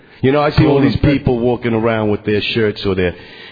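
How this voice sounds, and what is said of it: Brooklyn accent. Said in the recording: “Take a guess from my accent. ... I'm a Brooklyn boy all the way down the line. Brooklyn.”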